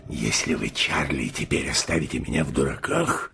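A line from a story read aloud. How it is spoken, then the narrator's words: Furious growling. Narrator (Russian): вне себя рычал капитан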